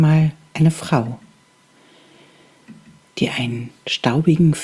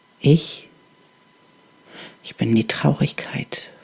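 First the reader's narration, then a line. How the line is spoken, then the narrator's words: Halting, barely audible whisper. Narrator (German): flüsterte die Stimme, stockend und so leise, dass sie kaum zu hören war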